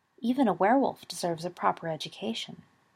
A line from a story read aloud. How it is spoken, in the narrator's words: Dumbledore said softly